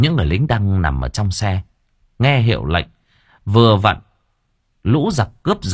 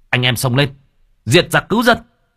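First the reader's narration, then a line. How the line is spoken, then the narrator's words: Battle cry. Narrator (Vietnamese): hét lên một tiếng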